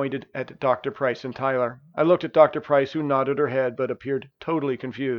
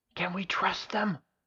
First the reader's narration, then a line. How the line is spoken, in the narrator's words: The boy patient looked scared and whispered